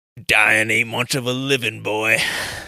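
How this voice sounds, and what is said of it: Imitates another person's voice. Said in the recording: “one of your Clint Eastwood famous lines ... That could have been Clint Eastwood himself, and I would have never known ... you've been practicing your Clint Eastwood impression”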